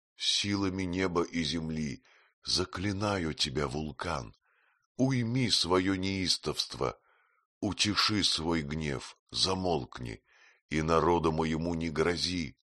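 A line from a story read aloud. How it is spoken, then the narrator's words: Queen's strained exclamation through smoke. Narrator (Russian): Но тяжким усилием преодолевая тяжесть дыма, воскликнула королева Артруда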